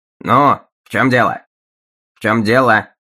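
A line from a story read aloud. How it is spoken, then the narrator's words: Curt question. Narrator (Russian): отрывисто спросил он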